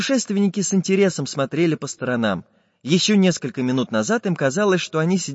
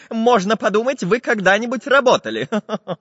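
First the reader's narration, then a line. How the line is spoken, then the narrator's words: Laughing. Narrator (Russian): засмеялся Самоделкин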